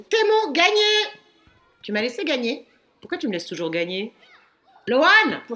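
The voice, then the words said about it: Shouting. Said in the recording (French): “Pourquoi tu cries toujours comme ça ?”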